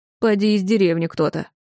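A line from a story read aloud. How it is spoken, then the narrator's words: Snorting innkeeper. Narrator (Russian): хмыкнул трактирщик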